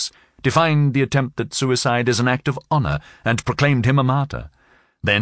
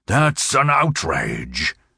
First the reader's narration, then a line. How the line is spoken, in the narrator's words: thundered